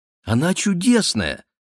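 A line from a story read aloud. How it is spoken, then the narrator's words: Young woman exclaiming. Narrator (Russian): воскликнула девушка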